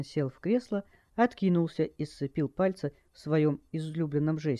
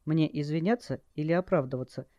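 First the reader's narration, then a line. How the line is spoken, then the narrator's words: Calm question. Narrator (Russian): Спокойно поинтересовалась она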